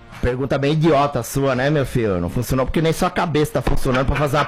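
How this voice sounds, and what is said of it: Imitates another person's voice. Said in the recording (Portuguese): “ele gosta bastante quando eu faço o Muricy”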